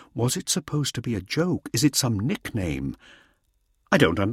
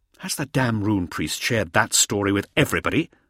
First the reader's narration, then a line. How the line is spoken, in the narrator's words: Hauser snapped